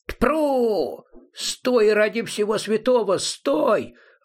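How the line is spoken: Yelling. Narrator (Russian): вопил возчик

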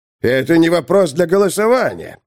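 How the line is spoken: Barking. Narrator (Russian): рявкнул он

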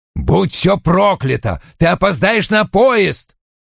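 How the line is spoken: Barked. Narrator (Russian): рявкнул он

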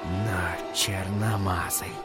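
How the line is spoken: Whisper. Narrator (Russian): шептал Джек

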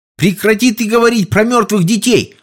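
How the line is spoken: Yelling. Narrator (Russian): заорал Сол

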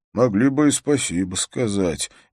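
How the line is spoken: Quiet grumble. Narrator (Russian): негромко проворчал Каюзак

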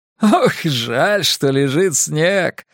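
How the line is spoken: Laughing. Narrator (Russian): смеялся он

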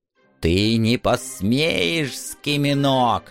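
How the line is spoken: Old woman hissing. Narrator (Russian): зашипела старуха

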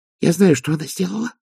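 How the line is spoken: Whisper. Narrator (Russian): прошептала Пердита

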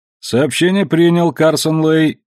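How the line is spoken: Grumbled. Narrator (Russian): знакомо проворчал Син

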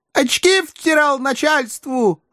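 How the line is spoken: Shouting. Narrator (Russian): орал девица

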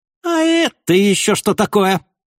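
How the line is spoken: Sudden shrill squealing exclamation. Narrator (Russian): вдруг воскликнул своим пронзительным визгливым голосом

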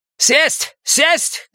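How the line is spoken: Snob shouting. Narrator (Russian): кричал сноб

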